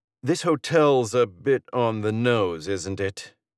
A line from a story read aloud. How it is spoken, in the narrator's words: he drawls